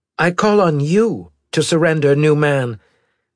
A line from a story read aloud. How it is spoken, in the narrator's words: Garcia said in a sharp voice